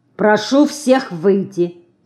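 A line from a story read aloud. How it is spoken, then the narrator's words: Stern doctor. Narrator (Russian): строго сказал доктор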